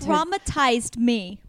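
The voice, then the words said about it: Put-on New Jersey accent. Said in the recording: “That sounds Jersey. ... That was like the most elegant Jersey accent I've ever heard.”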